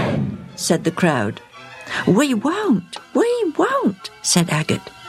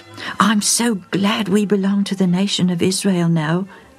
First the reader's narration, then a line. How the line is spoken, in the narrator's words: Dan'l said